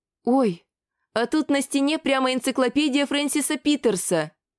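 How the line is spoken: Excited exclamation. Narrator (Russian): Восторженно воскликнула Мариша

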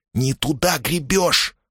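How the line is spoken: Hissed. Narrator (Russian): прошипел Муса

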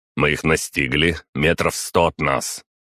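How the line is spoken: Loud statement. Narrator (Russian): я громко произнес

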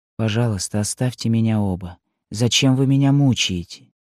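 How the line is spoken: Whisper. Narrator (Russian): прошептала

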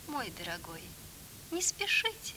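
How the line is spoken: Gentle lady instructing. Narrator (Russian): ласково наставляла дама

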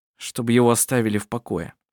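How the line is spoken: Gloomy reply. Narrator (Russian): мрачно ответил Коль

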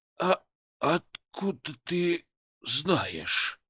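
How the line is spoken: Wheezy hoarse father. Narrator (Russian): просипел отец

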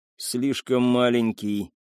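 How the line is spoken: Through teeth clenched in pain. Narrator (Russian): стиснув зубы от боли, процедил он

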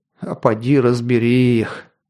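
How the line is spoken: Sighing. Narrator (Russian): вздохнул Варас

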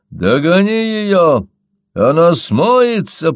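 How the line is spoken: Shouting. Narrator (Russian): прокричал Мои

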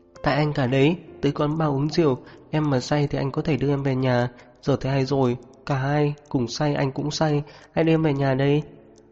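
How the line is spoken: Soft, after long silence. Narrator (Vietnamese): Rất lâu sau cô mới khẽ lên tiếng

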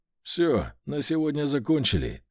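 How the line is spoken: After laughing. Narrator (Russian): сказал командир отряда, отсмеявшись

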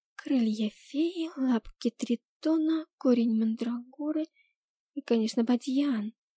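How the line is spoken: Whisper under breath. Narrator (Russian): шептала под нос

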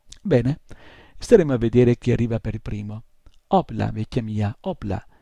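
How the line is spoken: Exclaimed. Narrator (Italian): esclamò

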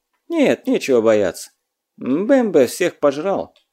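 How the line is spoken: Sad reply. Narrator (Russian): печально отозвался отшельник

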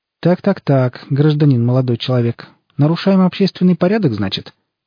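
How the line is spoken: Matter-of-fact voice. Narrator (Russian): произнес он будничным голосом

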